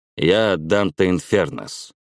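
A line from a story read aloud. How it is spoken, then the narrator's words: Grim repetition. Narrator (Russian): мрачно повторил я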